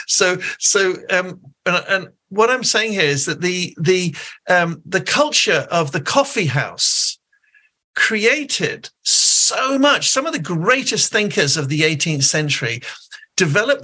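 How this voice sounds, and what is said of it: Posh English accent. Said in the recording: “I talk with a posh English accent”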